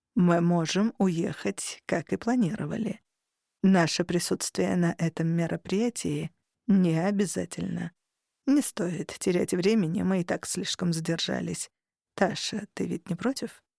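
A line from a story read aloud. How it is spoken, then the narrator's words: Close intimate whisper. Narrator (Russian): Тарухан прошептал, почти касаясь моего уха губами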